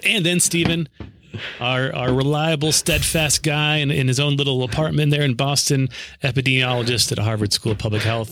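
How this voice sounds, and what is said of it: Radio announcer voice. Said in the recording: “your radio announcer voice.”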